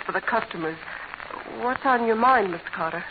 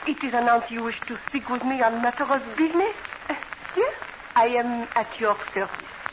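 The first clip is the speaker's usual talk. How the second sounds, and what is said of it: Phony put-on foreign accent. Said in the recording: “your accent's showing... never mind the phony accent.”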